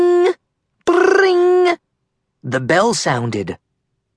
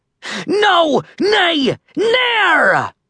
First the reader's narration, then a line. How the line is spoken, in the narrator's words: Red roared